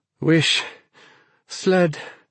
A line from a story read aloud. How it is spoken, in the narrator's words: she panted now